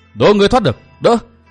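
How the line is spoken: Thunderous shout. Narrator (Vietnamese): một tiếng quát tựa như sấm động

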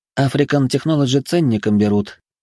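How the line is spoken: Sighing. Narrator (Russian): вздохнула Лариса

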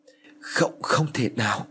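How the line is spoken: Trembling voice. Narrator (Vietnamese): Hắn run rẩy

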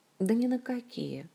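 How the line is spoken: Sighing. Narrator (Russian): вздохнула Ольга

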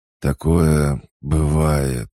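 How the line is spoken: Wounded man wheezing. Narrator (Russian): хрипел раненый северянин

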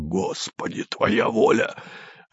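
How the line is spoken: Quiet desperate curse. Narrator (Russian): Кто-то тихо с отчаянием выругался

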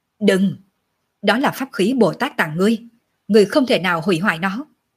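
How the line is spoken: Sharp shout. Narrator (Vietnamese): Độc Lang Quân lập tức thì quát

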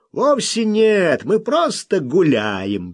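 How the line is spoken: Cheerful objection. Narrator (Russian): весело возразил Солтман

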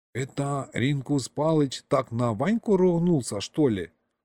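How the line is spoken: Whispered question. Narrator (Russian): шепотом спросил Гришка у деда

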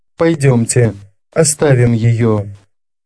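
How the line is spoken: Very soft. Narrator (Russian): сказал совсем мягко

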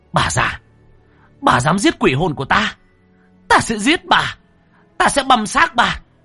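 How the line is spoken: Furious shouting. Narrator (Vietnamese): Cô anh hét lên về phía bà Mai Cảnh

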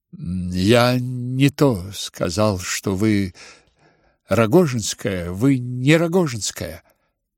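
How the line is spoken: Trembling voice. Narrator (Russian): дрожащим голосом выговорил князь

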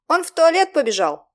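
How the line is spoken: Yelling over someone. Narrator (Russian): заорал я, стараясь перекричать блондинку

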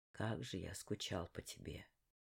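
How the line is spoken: Mutter. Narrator (Russian): пробормотал он

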